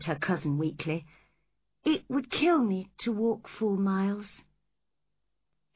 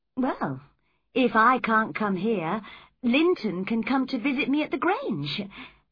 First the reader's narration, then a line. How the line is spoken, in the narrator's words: suggested Kathy happily